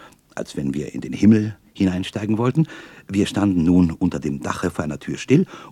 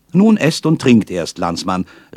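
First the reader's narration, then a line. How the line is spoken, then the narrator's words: Called out. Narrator (German): rief mir der Maler zu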